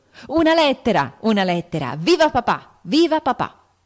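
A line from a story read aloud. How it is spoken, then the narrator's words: Shouting. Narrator (Italian): gridando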